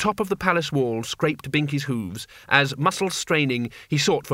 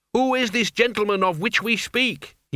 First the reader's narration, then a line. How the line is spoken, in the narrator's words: he yelled